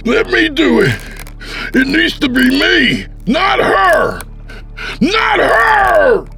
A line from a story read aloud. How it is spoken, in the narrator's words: screamed with insane fervor